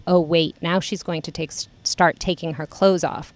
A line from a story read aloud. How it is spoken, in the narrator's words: Grace whispers to me